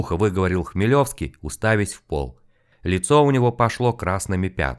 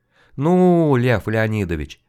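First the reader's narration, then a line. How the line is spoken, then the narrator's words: Mocking male drawl. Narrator (Russian): насмешливо протянул мужчина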